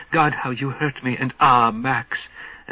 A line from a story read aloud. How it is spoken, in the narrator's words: Margarita whispering